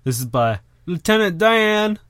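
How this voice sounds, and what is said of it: Forrest Gump character impression. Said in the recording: “my Forrest Gump impression”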